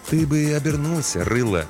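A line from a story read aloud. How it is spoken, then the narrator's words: Gentle advice. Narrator (Russian): мягко посоветовал детине смотритель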